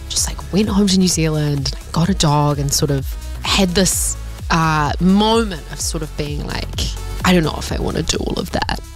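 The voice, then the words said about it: New Zealand accent. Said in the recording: “You can probably hear the Kiwi accent”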